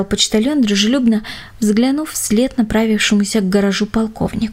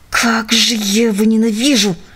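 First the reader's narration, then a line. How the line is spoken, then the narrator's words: Hiss through clenched teeth. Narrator (Russian): прошипел Джек сквозь стиснутые зубы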